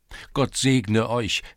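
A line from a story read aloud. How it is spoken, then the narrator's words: Exclaimed. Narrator (German): rief Tscherevik aus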